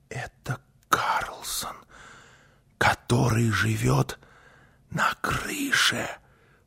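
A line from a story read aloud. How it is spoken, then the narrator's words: Whisper. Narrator (Russian): прошептала Гунила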